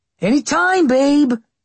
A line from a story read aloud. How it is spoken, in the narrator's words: Austin shouted after her